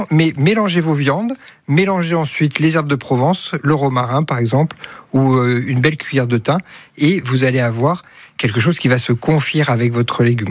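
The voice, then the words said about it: Southern French regional accent. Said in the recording (French): “votre accent, on les retrouve un petit peu comme Mireille Mathieu ... Ah non, elle, c'est Avignon. ... Ouais, on descend un peu plus.”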